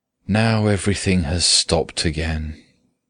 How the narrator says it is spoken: she used to say sadly

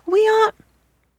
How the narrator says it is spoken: the children cried

